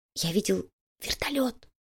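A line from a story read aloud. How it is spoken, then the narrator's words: Whispered. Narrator (Russian): прошептал Слизняк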